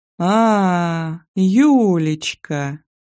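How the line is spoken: Young man drawling. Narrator (Russian): протянул парень

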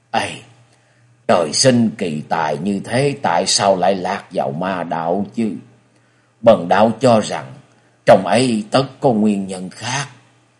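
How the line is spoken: Grave sighing priest. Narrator (Vietnamese): Võ Đan Lăng Phong đạo trưởng sắc diện nghiêm trọng, thở dài một tiếng nói

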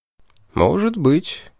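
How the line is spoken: Soft. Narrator (Russian): мягко промолвил Аларик

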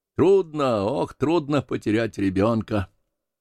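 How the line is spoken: Sighing. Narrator (Russian): вздохнул Пен

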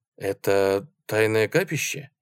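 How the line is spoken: Plain. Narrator (Russian): спросил я

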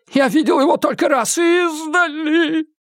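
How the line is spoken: Moaning. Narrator (Russian): простонал Кулпеппер

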